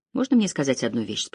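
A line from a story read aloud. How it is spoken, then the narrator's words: Fairly calm. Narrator (Russian): спросил Кэрри довольно спокойным тоном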